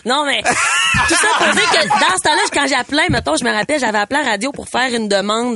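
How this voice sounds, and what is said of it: Regional Quebec Lac-Saint-Jean accent. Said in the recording (French): “c'était le temps où j'avais le, vrai accent du lac, le vrai accent. ... Ah, mais là, je l'ai encore,”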